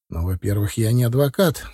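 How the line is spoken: Calm. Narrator (Russian): спокойно сказал я

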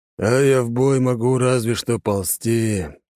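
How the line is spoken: Old man, heavy sigh. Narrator (Russian): тяжело вздохнул старик

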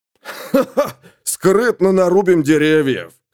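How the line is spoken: Laughing. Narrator (Russian): хохотнул Майн Молот, лорд Верхней Близняшки

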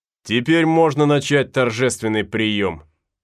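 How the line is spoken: Loud. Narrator (Russian): сказал он громко

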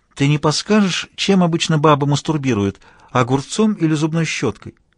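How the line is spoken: Honeyed sweet inquiry. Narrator (Russian): Аня и медовым голоском осведомилась

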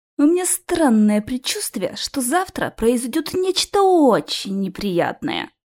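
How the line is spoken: Moan. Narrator (Russian): простонал я

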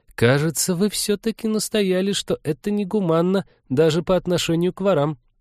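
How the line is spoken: Uncertain. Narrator (Russian): неуверенно сказала Полина

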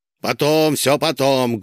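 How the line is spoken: Rude interruption. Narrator (Russian): грубо перебил ее Косяков

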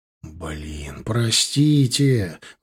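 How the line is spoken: Pleading. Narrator (Russian): взмолился я

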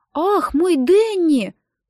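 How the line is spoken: Child's sudden exclamation. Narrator (Russian): вдруг воскликнул малыш

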